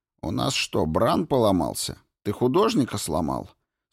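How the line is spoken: Stern question. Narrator (Russian): строго спросил Кин

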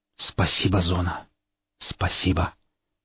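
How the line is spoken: Exhausted whisper. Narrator (Russian): только и смог прошептать я, рухнув без сил

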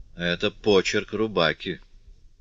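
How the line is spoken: Barely audible whisper to himself. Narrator (Russian): Жиль-Норман чуть слышно, как бы про себя прошептал

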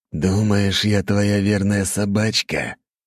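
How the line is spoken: Hoarse rasp. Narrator (Russian): прохрипел Харо

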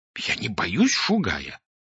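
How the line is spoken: Indignant whisper. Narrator (Russian): возмущенно прошептал Клочков

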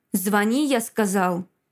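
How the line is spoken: Harsh bark. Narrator (Russian): рявкнул бывший муж

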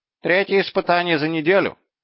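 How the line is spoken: Gloomy. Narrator (Russian): мрачно произнес Слухомодус

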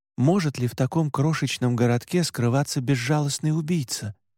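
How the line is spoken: Plain. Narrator (Russian): спросил я

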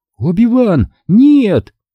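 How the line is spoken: Screaming. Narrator (Russian): закричала Астри

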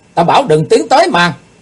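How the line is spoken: Loud shout. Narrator (Vietnamese): Kiếm khách quát to

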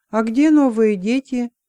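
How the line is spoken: Calm question. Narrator (Russian): привычка взяла верх, и он спокойно спросил

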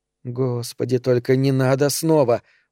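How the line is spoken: Inward groan. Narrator (Russian): мысленно простонала Эльза

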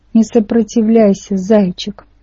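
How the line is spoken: Old woman's creaky voice. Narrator (Russian): проскрипела мне в ухо моя старая математичка

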